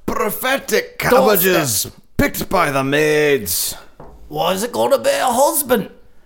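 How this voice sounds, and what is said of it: Muddled mixed British-Irish-Australian accent. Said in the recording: “Your accents are all one accent. They do not differentiate. ... all of ... are a mixture of Australian, English, and Irish. ... and like Jamaican or something too.”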